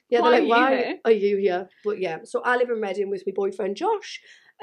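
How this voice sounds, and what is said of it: Northeast English Geordie accent. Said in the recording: “As you can tell, I am from South Shields, Newcastle, North East ... they hear my accent”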